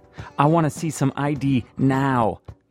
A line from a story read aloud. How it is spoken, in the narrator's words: the TV cop shouts